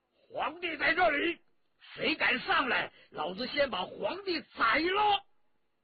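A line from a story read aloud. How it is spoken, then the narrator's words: Loud shout. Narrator (Chinese): 文泰来 高声喝道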